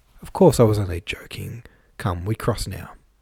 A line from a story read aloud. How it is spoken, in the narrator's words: said in a soft, friendly tone